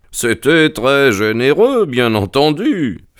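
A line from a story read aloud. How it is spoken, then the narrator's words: Sneering snicker. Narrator (French): fit Holmes en ricanant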